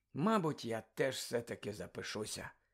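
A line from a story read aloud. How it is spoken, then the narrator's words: Sleepy mumble. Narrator (Ukrainian): сонно пробурмотів Рон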